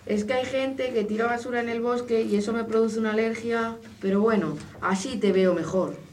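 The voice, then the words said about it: Wolf mimicking a grandmother's voice. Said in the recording (Spanish): “poniendo una voz parecida a la de la abuela.”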